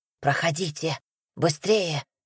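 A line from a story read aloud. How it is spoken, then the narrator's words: Whisper. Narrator (Russian): прошептал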